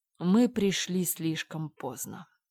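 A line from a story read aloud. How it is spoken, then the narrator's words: Gloomy. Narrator (Russian): мрачно заметил адвокат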